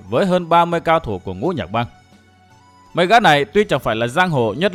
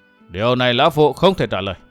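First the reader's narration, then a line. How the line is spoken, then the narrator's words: Forced cold laugh. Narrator (Vietnamese): Mặc Nho kinh hoàng vội trấn định tinh thần cười nhạt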